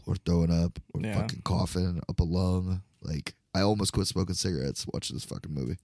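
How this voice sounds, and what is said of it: Croaky, raspy smoker's voice. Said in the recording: “you sound more like Capone ... Starting to be more of a croak than talking.”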